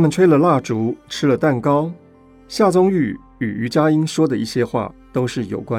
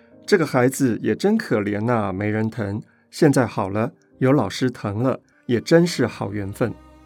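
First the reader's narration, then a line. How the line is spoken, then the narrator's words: Beaming cheerfully. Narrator (Chinese): 姚妈眉花眼笑地说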